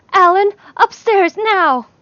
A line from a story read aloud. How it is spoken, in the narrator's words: Lee made a small gasping noise and yelled